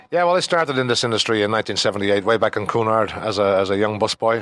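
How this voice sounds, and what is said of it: Irish Dublin accent. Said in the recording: “the accent, Scotland, Ireland. Uh, from Dublin, Ireland.”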